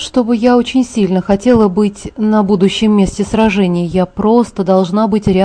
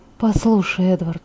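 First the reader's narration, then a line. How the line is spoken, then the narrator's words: Whispering. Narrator (Russian): шептала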